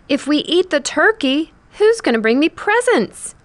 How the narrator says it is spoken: wailed

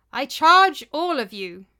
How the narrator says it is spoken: he said in a loud voice

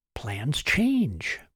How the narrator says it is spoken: Martin whispered

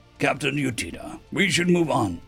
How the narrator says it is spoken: their escort said gruffly behind them

